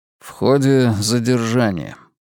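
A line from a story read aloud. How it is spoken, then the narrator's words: Gloomy reply. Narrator (Russian): мрачно ответил я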